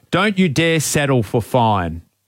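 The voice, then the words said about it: Imitates another person's accent. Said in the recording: “Can you say it with his accent? It sounds better.”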